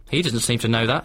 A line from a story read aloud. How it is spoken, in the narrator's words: she said